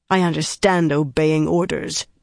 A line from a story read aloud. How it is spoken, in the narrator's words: Harina growled